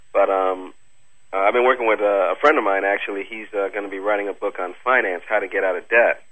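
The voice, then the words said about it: Slightly congested, stuffy voice. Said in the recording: “I have a little bit of a cold.”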